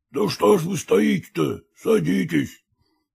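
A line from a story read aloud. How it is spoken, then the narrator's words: Hoarse male voice. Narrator (Russian): произнес хриплый мужской голос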